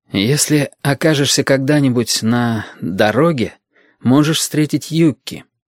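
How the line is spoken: Plain. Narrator (Russian): сказал Яшка

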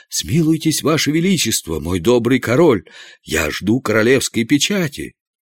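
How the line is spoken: Trembling exclamation. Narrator (Russian): Канцлер, дрожа всем телом, воскликнул

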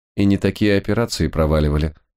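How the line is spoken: Reply in matching tone. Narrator (Russian): в тон ответил Ренар

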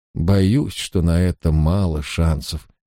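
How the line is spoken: Sad servant. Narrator (Russian): печально ответил слуга

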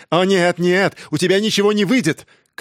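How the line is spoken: Shouted. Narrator (Russian): крикнул он

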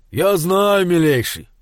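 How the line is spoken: Deep bass voice. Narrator (Russian): басил батюшка

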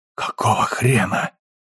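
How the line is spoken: Breathed out. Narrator (Russian): выдохнул Алекс

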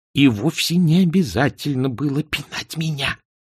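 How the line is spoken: Hissed. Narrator (Russian): прошипел Эрик

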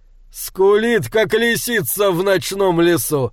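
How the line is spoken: Exclaim through laughter. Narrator (Russian): сквозь смех воскликнул Бальдр

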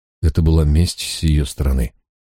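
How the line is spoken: Plain. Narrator (Russian): сказал я

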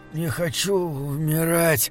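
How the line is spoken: Hoarse rasping. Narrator (Russian): хрипел Гримрик

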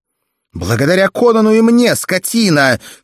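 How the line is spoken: Shout shaking with anger, shame. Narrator (Russian): крикнула Валерия, содрогаясь от гнева и стыда

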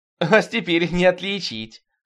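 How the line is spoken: Laughing loudly. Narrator (Russian): хохотала Изора

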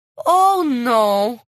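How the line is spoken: Moaning. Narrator (Russian): простонала миссис Труффа

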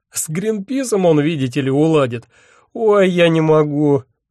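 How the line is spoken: Moaning. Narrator (Russian): стонал он

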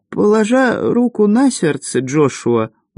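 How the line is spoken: Tired. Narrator (Russian): устало произнесла Мисси

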